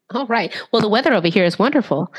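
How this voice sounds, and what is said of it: Newscaster voice. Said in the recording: “That's my newscaster voice”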